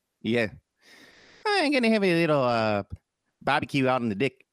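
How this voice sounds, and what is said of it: Put-on New Zealand accent. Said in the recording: “when I want to do a New Zealand accent ... you say dick instead of deck, and that's how it gets me into my New Zealand accent.”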